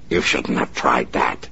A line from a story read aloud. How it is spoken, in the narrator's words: he snarled